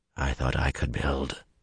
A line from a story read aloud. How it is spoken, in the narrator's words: Luce Theron murmured in his head